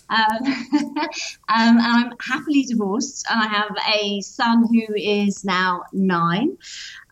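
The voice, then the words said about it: British accent. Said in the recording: “I'm based in the UK, as you can probably tell by my accent.”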